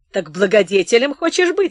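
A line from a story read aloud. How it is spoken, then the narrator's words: Laughing. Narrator (Russian): смеялся он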